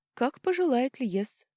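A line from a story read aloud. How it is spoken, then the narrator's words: Gentle singsong. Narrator (Russian): ласково пропела девушка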